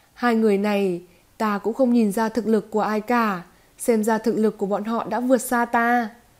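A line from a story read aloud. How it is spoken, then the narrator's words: Bitter sighing laugh. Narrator (Vietnamese): cười khổ, thở dài nói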